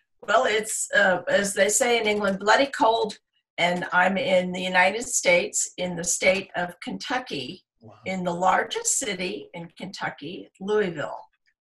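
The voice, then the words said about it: American accent. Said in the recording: “I can tell by your accent you're not from the UK. So you're obviously from over the pond.”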